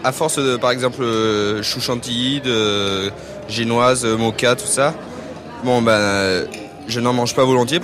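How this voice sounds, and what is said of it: Slight southern French accent. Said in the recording (French): “c'est quelqu'un du Sud, j'entends un petit accent.”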